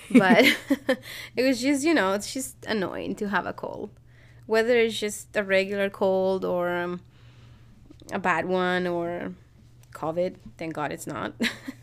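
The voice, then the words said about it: Stuffy, congested voice. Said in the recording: “If you can hear in my voice, I'm a little bit stuffy.”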